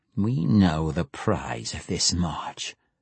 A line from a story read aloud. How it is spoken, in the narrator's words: she said, her voice a feral snarl